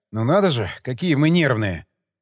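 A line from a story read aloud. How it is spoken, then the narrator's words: Grumbling. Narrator (Russian): Пробурчал я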